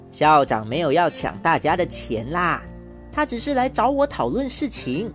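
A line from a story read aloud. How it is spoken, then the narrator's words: Laughing. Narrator (Chinese): 肖妈妈笑着说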